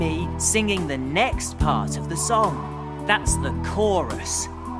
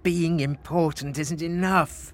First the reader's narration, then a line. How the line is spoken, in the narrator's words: moaned Frederick